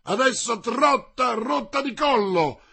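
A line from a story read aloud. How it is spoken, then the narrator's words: Shouted. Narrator (Italian): gridò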